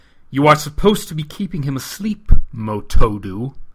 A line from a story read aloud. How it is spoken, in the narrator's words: Gar growled